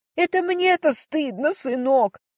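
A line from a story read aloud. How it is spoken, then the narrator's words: Tearful wailing mother. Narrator (Russian): сквозь слезы запричитала мама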